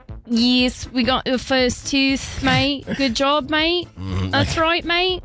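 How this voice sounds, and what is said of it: Put-on Australian accent. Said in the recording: “in an Australian accent”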